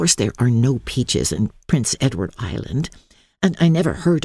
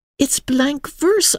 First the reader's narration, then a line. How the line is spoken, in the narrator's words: I cried